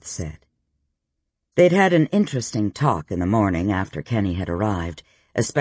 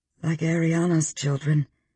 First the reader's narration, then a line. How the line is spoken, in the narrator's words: Elle said softly